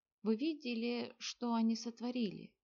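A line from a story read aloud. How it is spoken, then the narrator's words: Breathless. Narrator (Russian): выдохнул Кенрик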